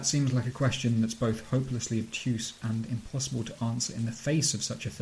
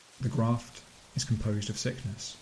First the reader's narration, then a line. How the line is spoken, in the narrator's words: Jacoby replies calmly